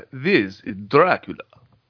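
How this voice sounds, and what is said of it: Generic Dracula Hungarian-Romanian accent. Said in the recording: “he has a pretty good Hungarian or Romanian accent, depending on your perspective... That was my generic Dracula.”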